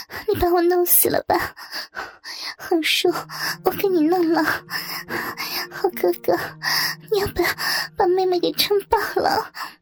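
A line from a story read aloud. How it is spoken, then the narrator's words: Breathless crying out. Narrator (Chinese): 他喘不过气来似的 嘴里喊着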